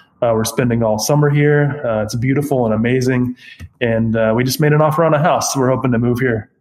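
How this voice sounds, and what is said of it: Choked-up, emotional voice. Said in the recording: “I got a little choked up”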